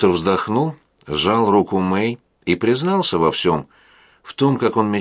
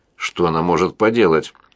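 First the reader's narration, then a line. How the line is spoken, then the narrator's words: Glum question. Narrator (Russian): уныло спросил Уолтер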